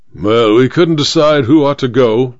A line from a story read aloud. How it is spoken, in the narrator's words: said the major gruffly